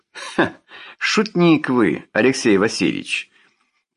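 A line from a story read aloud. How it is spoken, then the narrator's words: Chuckle, usual tone. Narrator (Russian): Переходя на свойственный тон, хохотнул Вяткин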